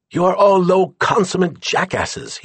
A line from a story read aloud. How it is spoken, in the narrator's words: he shouted